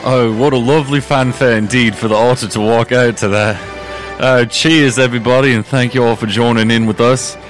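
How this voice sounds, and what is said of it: Put-on British accent. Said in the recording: “I have to talk in my British accent ... what a lovely British accent it is as well”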